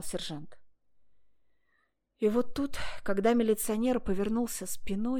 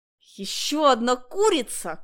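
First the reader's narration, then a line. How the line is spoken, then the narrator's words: Distant shout. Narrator (Russian): крикнул издали сержант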